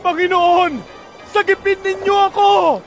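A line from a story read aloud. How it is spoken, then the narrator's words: Desperate shout for help. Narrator (Tagalog): Sigaw niya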